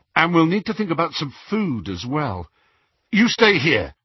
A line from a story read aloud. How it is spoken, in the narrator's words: he added sharply